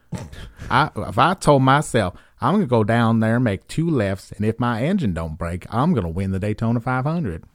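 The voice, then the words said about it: Put-on rural North Carolina accent. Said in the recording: “my second favorite one is the Central North Carolina hick accent.”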